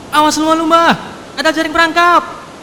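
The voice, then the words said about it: Shouted warning. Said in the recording (Indonesian): “Teriak”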